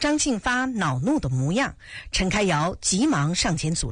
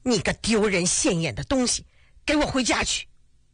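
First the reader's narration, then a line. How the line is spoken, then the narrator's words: Stern, sharp voice. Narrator (Chinese): 张庆发厉声说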